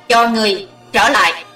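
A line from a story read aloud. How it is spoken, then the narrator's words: Shrill shout. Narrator (Vietnamese): Hắn hét lanh lảnh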